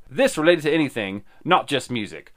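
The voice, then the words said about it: Put-on accent. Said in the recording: “Was a good accent.”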